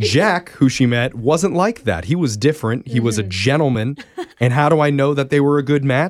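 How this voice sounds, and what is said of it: Usual voice. Nothing is said of it.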